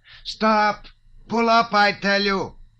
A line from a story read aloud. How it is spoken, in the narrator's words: he cried in a piercing voice